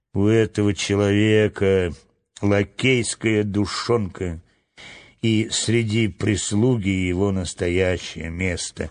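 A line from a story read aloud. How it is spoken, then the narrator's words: Grumbling. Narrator (Russian): Ментаха проворчал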